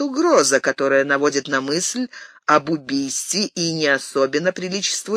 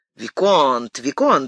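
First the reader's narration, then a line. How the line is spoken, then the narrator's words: Exclamation. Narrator (Russian): воскликнул де Вард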